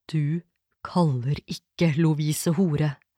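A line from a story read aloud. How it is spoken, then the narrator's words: Hissed. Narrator (Norwegian): freste han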